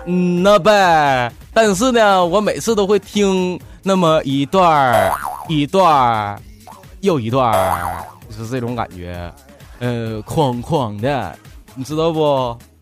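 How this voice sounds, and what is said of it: Northeastern Chinese accent. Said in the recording (Chinese): “你听我口音，你听不出来我是哪里人吗？...东北旮旯的。...对呀，东北这旮瘩的”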